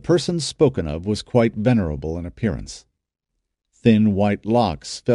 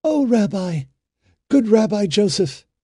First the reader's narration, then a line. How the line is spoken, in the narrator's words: cried a woman, running to him